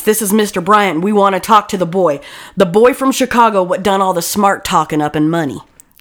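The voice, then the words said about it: Put-on accent. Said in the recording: “Did you like my accent?”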